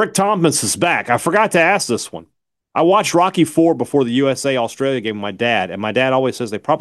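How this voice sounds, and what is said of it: Usual voice. Nothing is said of it.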